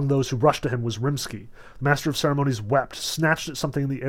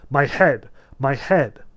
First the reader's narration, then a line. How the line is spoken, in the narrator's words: He cried out pitifully